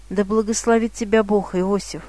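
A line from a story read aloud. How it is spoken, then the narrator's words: Relieved sigh. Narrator (Russian): сказала Анна, с облегчением вздохнув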